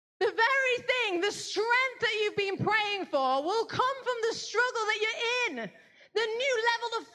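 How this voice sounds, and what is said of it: Yelling, loud forceful preaching voice. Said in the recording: “Why are you yelling at me? ... Please stop yelling at me.”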